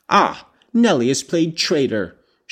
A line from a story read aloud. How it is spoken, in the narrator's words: she exclaimed passionately